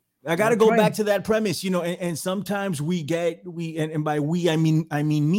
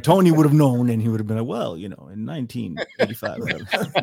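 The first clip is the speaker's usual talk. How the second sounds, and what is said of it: Imitates another person's voice. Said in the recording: “my best Tony Arterburn impression”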